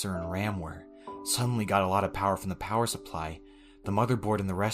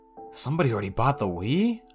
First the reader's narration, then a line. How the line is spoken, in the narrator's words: I exclaimed